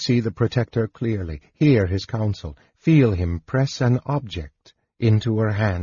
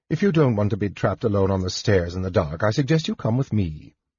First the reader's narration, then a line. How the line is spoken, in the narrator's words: Jenna advised